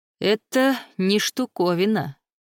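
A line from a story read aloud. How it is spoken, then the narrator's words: Scoffing grunt. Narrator (Russian): хмыкнул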